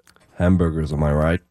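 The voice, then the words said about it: Deep put-on American accent. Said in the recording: “American accents ... Good deep voice.”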